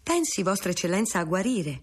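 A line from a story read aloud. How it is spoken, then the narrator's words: Exclamation. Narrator (Italian): esclamò Consalvo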